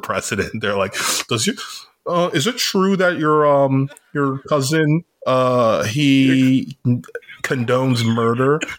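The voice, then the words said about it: Imitates another person's voice. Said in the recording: “Was that Barack Obama asking the question there? ... pretty good Obama impression. You sounded like him for a second.”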